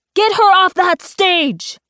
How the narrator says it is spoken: barks Director Van Helsing

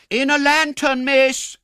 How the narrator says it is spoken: cried Brittles, applying one hand to the side of his mouth so that his voice might travel the better

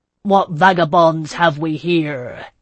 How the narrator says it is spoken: he bellowed, roaring out the question

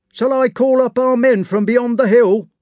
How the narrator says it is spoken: he called out

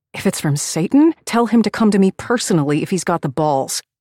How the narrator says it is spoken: I spat out

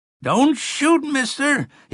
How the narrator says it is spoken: he heard himself bawl in the thin, wavering voice of an old man

